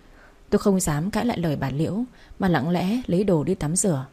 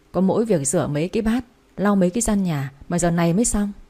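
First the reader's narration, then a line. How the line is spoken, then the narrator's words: Sighing older woman. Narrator (Vietnamese): Bà Liễu thở dài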